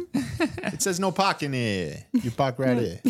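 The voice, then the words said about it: Imitated Boston accent. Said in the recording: “used the Boston accent”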